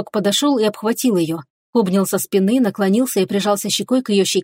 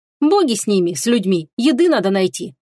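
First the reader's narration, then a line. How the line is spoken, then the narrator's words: Calmer voice. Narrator (Russian): уже более спокойным голосом ответила Теруми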